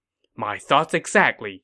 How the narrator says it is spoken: Zhuge Ke replied

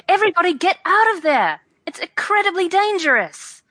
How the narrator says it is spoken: I should like to yell

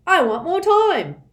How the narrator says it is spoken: cried another

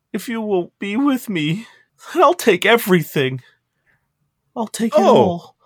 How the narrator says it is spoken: goes limp and begins sobbing once more and says

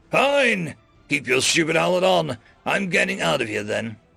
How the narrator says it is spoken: he snarled back

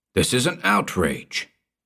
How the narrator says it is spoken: thundered Stilton, as soon as he had recovered a little from his primary surprise

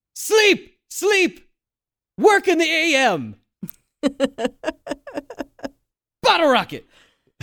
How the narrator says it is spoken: his final yells were

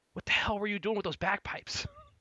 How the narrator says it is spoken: he's going to whisper

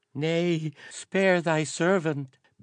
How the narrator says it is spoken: begged the green-kilted courier, raising sweaty, imploring hands

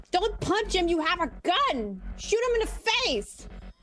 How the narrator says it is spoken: Lillian is going to yell

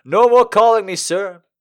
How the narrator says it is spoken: he bellowed

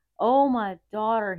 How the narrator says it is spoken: he cried out

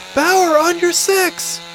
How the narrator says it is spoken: Marie shouted

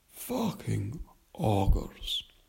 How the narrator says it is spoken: said wearily

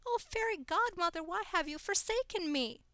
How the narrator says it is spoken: She squealed

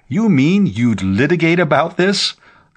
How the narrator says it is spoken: the lawyer demanded

